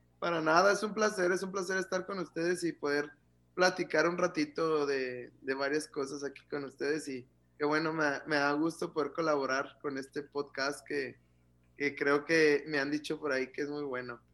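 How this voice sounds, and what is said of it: Ciudad Juárez Mexican Spanish accent. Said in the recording (Spanish): “te salió el acento juarense ... Ya se pega, dicen que se pega.”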